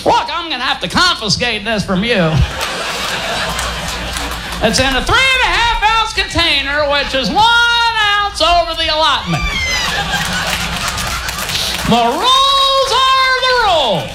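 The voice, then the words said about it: Barney Fife character voice. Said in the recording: “My Barney Fife impression.”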